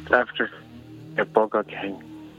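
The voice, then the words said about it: Whispering. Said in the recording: “Why are you whispering?”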